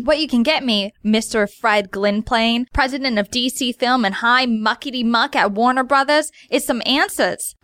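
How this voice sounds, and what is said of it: Harley Quinn voice, Brooklyn accent. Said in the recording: “Harley Quinn ... my Brooklyn accent”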